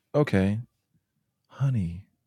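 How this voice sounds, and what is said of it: Man putting on a woman's voice. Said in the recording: “Is that supposed to be a British accent? ... I'm not doing an accent. I'm just pretending to be a woman, but just not a British woman.”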